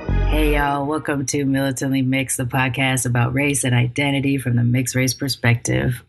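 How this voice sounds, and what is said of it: Messed-up, tired-sounding voice. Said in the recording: “my voice is messed up for the second week in a row ... I'm exhausted, people ... Yes, my voice is messed up again”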